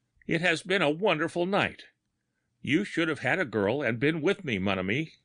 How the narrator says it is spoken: cried

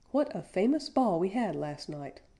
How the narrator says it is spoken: cried after a short pause

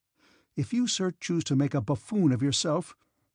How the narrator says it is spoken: he said sharply, with a slight trembling of the lower jaw

